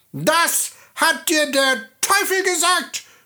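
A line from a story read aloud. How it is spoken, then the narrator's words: Little man shouting. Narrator (German): schrie das Männlein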